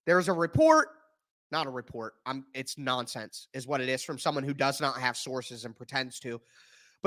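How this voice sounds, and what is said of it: Strained voice, giving out. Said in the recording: “I am struggling. My voice is trying to give out”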